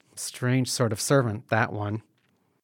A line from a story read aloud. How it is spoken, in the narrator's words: one of the women mutters